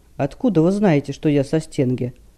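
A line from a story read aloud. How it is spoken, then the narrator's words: Snorting. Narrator (Russian): Стилет хмыкнул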